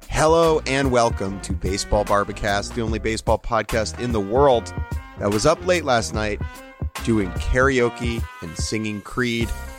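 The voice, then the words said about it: Raspy voice. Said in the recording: “my voice is raspy”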